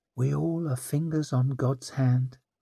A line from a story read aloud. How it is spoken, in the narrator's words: she murmured with a sorry shrug